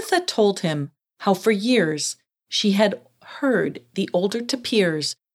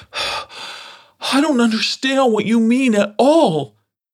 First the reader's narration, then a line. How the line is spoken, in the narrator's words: gasped a breathless Dirty Gus